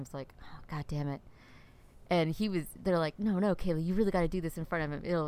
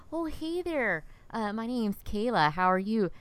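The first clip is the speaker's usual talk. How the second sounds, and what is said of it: South Dakota accent. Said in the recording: “you must be from South Dakota”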